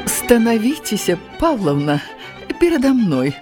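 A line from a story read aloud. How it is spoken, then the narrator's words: Kind old woman inviting. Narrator (Belarusian): Ласкава запрасіла старая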